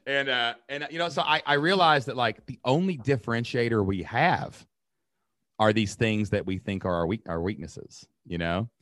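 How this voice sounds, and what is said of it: Rural Kentucky accent. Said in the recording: “My accent, Kentucky ... Is super redneck ... As rural as it gets”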